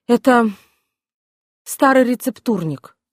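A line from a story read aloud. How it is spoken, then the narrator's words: Plain. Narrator (Russian): сказала Алекс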